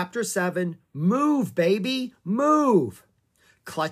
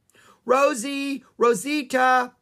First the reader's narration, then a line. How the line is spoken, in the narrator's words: Annie yelled